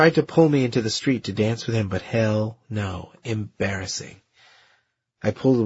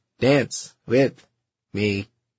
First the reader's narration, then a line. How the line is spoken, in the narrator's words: said in a mock robot voice